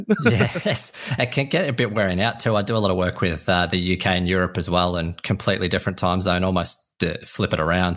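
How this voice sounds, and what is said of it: Australian accent. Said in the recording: “an Australian having a conversation with me ... here's a comforting accent”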